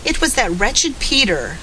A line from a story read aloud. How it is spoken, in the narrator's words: sobbed indignantly